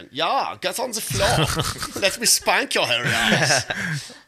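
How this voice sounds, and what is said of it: Put-on German accent. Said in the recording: “There's nothing sexier than a German accent.”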